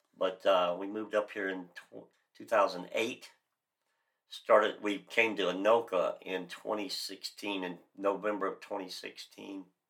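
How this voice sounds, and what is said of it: Florida accent. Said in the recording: “as everybody can hear by my voice, I'm really from Florida”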